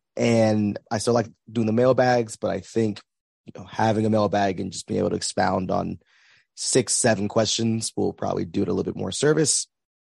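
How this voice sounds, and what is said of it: Hoarse, weak recovering voice. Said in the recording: “I spent the last 2 days without a voice. It's a little better right now, but I'm sure you can kind of hear my voice is trying to make its way back.”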